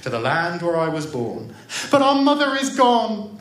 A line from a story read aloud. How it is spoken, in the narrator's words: the children cried